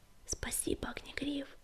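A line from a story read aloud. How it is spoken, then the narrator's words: Whisper. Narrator (Russian): прошептала Синеглазка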